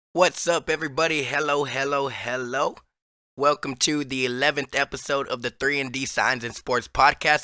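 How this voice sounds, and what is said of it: Hoarse, nearly lost voice. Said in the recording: “as you can probably hear in my voice, I am hoarse from the last couple days. I am on the verge of losing my voice”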